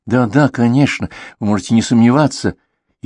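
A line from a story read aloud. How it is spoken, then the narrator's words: Frightened mumble. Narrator (Russian): испуганно забормотал вьетнамец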